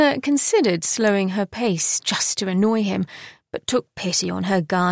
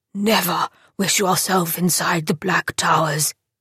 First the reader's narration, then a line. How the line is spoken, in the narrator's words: said gravely